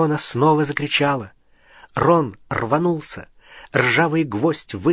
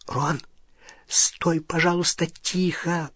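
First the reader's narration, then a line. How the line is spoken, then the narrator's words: Whispered. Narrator (Russian): прошептала Полумна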